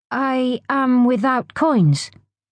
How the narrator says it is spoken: stammered

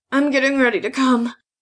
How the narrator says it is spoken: she grunted as she clenched her teeth

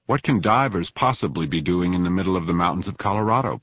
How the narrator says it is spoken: Pat asked

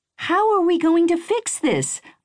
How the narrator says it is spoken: I asked her, my voice pitchy with panic

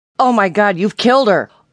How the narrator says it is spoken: he shouted

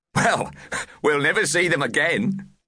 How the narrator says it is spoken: laughed Plughole

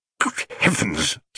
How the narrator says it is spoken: spluttered Mr

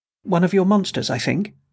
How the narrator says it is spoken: she replied shakily

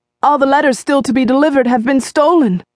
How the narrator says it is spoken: Ira Nixon exclaimed

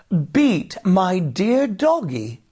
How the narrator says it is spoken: exclaimed Jamie

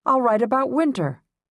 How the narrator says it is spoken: I shouted

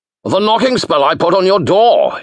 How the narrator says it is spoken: he bellowed, as if talking into a gale

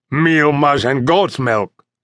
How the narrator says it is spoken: snorted Sergeant Gonzalez in disgust

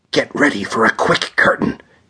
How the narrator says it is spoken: he whispered

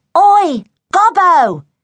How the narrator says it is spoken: yelled a voice

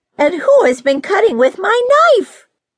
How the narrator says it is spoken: The sixth cried

